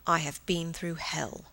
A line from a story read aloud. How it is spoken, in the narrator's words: he lowered his voice